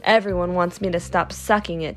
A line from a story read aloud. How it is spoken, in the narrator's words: answered